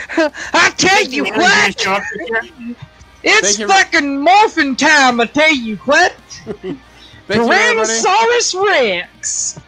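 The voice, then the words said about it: Put-on southern accent. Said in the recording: “a southern accent”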